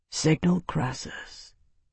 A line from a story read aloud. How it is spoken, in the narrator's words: Tavi said quietly